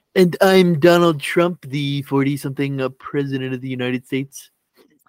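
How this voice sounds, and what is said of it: Donald Trump impression. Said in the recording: “I kind of lost the accent. Uh, the voice. ... you want it lower. Lower. You want to elongate your words. ... somewhere between New Jersey and dumb”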